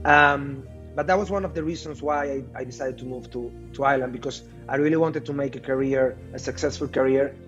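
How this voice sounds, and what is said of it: Non-native accent in English. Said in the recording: “My English was not that good at that time. I cannot say that it's perfect yet, because of course I still keep my accent.”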